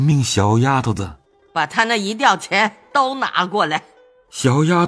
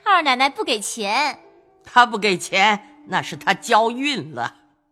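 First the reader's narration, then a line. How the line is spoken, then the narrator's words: Laughing. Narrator (Chinese): 鸳鸯笑道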